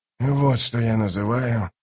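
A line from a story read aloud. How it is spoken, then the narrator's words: Muttered. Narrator (Russian): пробормотал Ток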